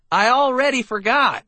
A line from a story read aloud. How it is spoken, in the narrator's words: I shouted back